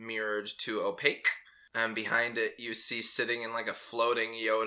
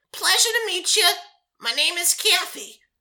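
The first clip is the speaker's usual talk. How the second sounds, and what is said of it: New York landlord accent character voice. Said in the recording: “they all have this accent? ... they all have these really kind of like New York landlord sort of... ... Like Kathy, who smokes too many cigarettes”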